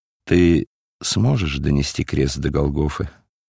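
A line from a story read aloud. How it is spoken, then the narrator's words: Quiet compassionate question. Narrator (Russian): Центурион Петроний тихо, сострадающе спросил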